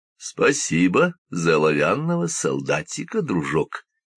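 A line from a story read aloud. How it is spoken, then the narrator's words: Plain. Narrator (Russian): сказал он мальчику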